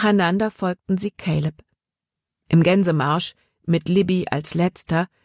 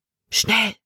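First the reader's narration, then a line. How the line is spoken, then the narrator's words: Whisper. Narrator (German): flüsterte sie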